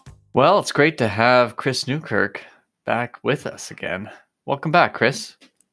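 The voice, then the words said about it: Fake polished podcast-host voice. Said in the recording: “I've been working on my podcast voice ... I like it. I like it. It's fake and lovely.”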